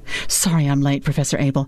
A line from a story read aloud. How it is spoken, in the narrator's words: she said breathlessly